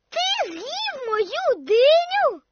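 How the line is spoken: Disappointed shout. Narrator (Ukrainian): закричала Коко розчаровано

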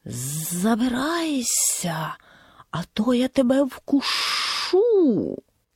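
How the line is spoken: Hissing. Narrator (Ukrainian): Змія зашипіла

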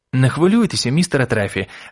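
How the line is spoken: Joyful reply. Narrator (Ukrainian): радісно відповів Крісті

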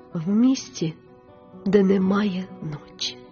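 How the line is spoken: Tender speech. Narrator (Ukrainian): ніжно сказала мадемуазель Віртут

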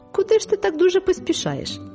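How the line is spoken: Cheerful question. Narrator (Ukrainian): запитав він весело

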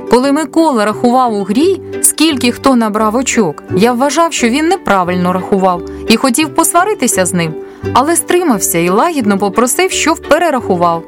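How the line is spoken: Plain. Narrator (Ukrainian): сказав Тарас

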